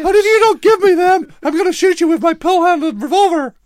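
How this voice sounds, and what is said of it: High squeaky put-on voice. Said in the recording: “My name's Patton. I've got a really high squeaky voice.”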